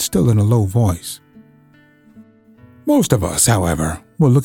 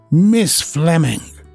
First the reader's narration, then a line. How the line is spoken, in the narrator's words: she said in an acid voice